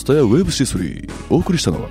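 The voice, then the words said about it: Imitates store PA announcement voice. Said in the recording (Japanese): “ツタヤの店内放送ってやつです”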